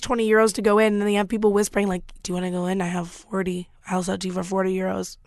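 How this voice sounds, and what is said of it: Raspy voice. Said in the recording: “my raspy voice ... I think it's getting better”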